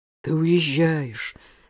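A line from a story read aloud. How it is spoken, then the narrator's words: Tragic moan. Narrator (Russian): с трагическим выражением простонал Эсме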